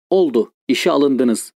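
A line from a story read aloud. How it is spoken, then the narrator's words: Plain. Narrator (Turkish): dedi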